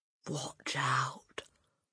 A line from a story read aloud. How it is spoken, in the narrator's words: Hortensia whispered